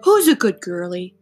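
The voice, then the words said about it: Imitates a dad's voice. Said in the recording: “in my dad voice.”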